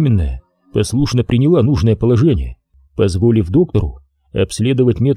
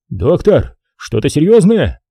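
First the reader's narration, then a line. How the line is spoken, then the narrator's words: Sudden exclamation. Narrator (Russian): тут же воскликнул муж роженицы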